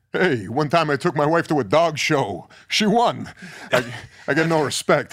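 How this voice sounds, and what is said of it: Rodney Dangerfield impression. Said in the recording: “Rodney”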